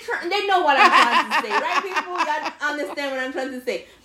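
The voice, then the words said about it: Speaker with a noticeable accent. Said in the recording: “Please excuse ... accent.”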